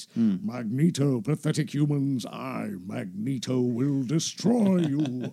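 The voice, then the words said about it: Saturday morning cartoon villain voice. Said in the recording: “It's such a Saturday morning cartoon voice.”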